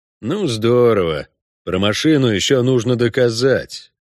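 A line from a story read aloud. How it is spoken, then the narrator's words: Annoyed, through teeth. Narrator (Russian): досадливо процедил прокурор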